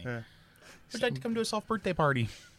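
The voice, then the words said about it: Put-on Canadian accent, Letterkenny style. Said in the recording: “I'll tack on the accent. Like, I'll start talking like those guys ... I'm talking like the guys from Letterkenny ... we can't slip into a Canadian accent”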